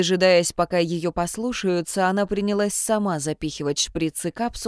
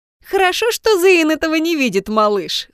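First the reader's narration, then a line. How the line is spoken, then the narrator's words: Laughing. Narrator (Russian): смеялась она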